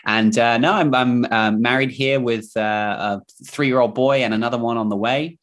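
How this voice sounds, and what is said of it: Mixed English and New Zealand accent. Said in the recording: “accent, it's sort of a mix of English slash Kiwi New Zealand accent.”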